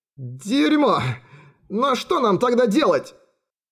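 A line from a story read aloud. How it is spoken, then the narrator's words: Strained, forced out. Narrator (Russian): выдавил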